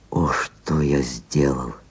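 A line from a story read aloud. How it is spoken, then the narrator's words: Bitter involuntary whisper. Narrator (Russian): невольно шептали горьким шепотом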